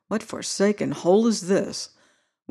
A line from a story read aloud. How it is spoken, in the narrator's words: I was muttering half aloud